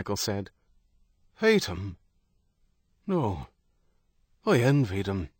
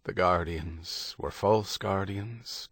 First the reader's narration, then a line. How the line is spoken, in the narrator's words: Doheny said, his voice low and thoughtful